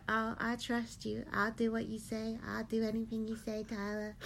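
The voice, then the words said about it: Imitates another person's voice. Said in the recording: “such a good impression”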